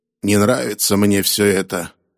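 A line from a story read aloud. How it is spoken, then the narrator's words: Grumbled. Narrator (Russian): проворчал он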